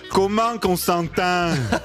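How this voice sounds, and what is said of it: Put-on Valais Swiss French accent. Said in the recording (French): “je vais être obligé de prendre l'accent valaisan”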